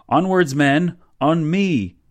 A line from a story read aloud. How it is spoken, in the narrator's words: he yelled